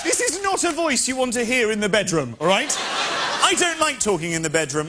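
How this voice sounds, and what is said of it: British accent. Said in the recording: “I've been complimented on my accent here... Someone said my accent was sexy”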